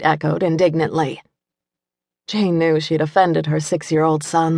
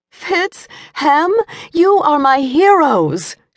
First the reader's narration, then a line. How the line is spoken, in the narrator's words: she cried